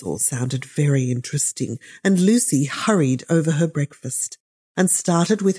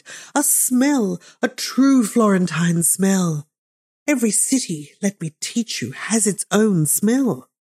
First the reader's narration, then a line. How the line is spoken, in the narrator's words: she cried